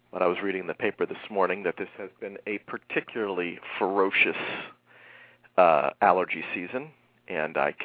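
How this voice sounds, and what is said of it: Nasal, congested voice. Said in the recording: “I sound nasal ... even if I am nasal today”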